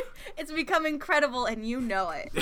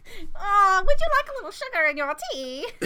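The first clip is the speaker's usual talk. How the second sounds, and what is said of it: Old lady voice. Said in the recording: “I sound like an old lady.”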